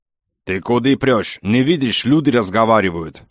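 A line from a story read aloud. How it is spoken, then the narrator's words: Roaring. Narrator (Russian): взревел кавказец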